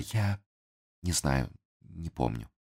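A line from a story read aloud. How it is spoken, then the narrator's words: Weak voice. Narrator (Russian): слабым голосом произнесла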